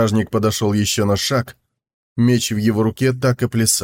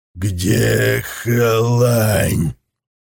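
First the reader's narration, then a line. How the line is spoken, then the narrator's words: Growling. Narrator (Russian): прорычал он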